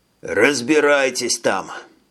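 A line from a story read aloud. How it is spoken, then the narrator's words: Hoarse voice. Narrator (Russian): осипшим голосом добавил Рихман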